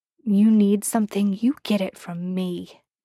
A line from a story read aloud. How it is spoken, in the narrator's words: he growled